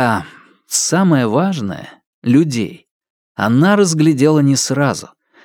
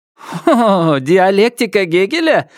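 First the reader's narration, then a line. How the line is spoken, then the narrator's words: Ringing laughter. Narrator (Russian): звонко засмеялась Чернобурка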